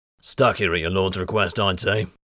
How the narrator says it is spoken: Voslo grunted

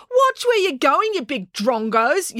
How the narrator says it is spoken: yelled April

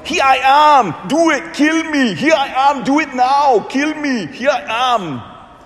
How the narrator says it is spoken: he yells

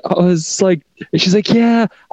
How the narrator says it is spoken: I cried

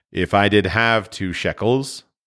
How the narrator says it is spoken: Bonsir responded gloomily

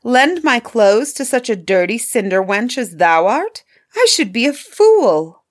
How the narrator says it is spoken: cried Miss Charlotte

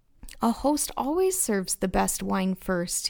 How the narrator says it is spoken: he said

